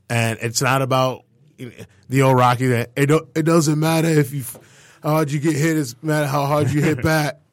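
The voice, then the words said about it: Imitates another person's voice. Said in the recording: “That was a horrible Stallone impersonation ... Yeah, no, that was right not there.”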